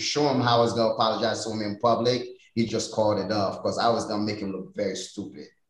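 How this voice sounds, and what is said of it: Haitian accent. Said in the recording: “people can hear the accent... Born in Haiti”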